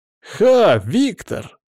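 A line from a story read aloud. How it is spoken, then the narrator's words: Joyful exclamation. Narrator (Russian): радостно воскликнул Амисад Рамсей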